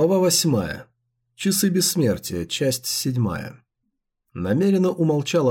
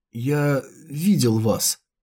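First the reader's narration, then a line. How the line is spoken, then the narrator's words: Coughing, strained. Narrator (Russian): кашлянув, наконец выдавил из себя Шэнь Вэй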